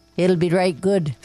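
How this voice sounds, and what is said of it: Put-on Newfoundland accent. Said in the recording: “That's my newfie. Well. My newfinese. That's what they say. That's the accent.”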